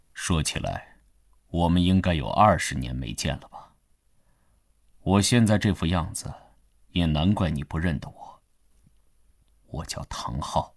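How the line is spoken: Calm, flat. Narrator (Chinese): 灰衣人淡淡地说

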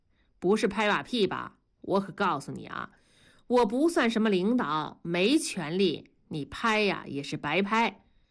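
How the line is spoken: Jovial, chuckling. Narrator (Chinese): 同志笑呵呵地说

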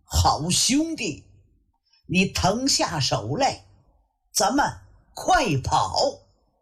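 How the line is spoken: A cry. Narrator (Chinese): 他叫了一声

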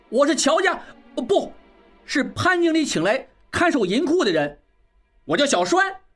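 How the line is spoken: Loud. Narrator (Chinese): 小栓仍然大声道

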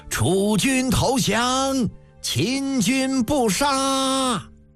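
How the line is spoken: Soldiers shouting in unison. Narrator (Chinese): 其余战船的兵士们也齐声呐喊，声震峡谷

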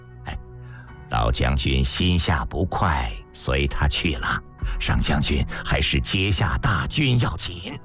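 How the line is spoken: Low voice. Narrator (Chinese): 平原君低声道

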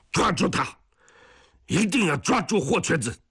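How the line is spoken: Angry roar over radio. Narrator (Chinese): 松刚在电台里一遍一遍地怒吼

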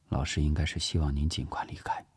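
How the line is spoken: Quietly. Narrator (Chinese): 聂西低声说

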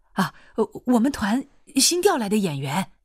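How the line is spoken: Hurried. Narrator (Chinese): 保卫科的人急忙说

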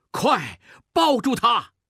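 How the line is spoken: Shouting. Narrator (Chinese): 孟梅喊

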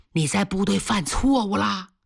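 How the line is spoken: Quiet question. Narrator (Chinese): 小声问

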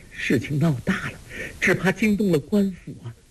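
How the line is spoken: Terrified, trembling voice. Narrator (Chinese): 包惜若早已经吓得脸上全无血色，颤声说

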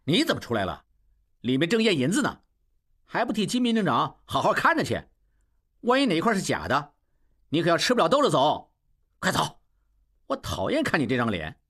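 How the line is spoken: Loud. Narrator (Chinese): 小栓大声说

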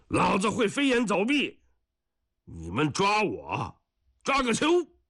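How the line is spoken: Shout. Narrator (Chinese): 霍英山再喊上一声

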